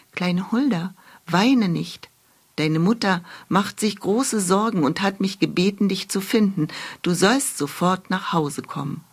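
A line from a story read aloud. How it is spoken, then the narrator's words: Whisper in ear. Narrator (German): flüsterte ihr ins Ohr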